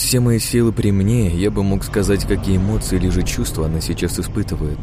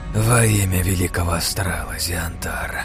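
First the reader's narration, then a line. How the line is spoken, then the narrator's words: Tired whisper. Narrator (Russian): прошептала странница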